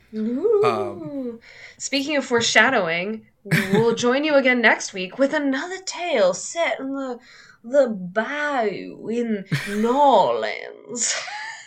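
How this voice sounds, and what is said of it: Bad put-on New Orleans accent. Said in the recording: “It's my terrible New Orleans accent... It's so bad.”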